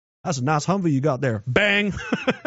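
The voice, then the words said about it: Put-on Texas accent. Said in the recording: “I can do a fucking Texas accent,”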